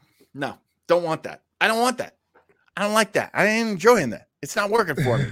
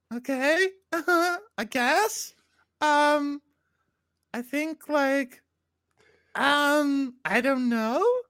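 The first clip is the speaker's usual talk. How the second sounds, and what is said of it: Imitation of Star Trek's Adira. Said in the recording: “my Adira imitation”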